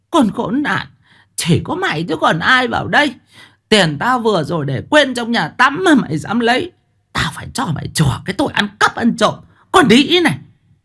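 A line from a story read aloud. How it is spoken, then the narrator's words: Shrill furious hiss. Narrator (Vietnamese): Bà Tháo rít lên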